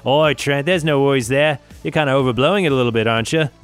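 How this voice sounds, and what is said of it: Bad put-on Australian accent. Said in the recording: “that's a terrible Australian accent”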